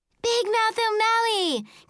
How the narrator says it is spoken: Caroline shouted

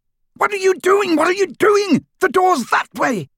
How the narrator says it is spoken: screamed Malfoy

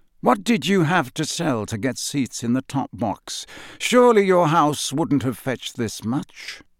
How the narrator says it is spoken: said softly

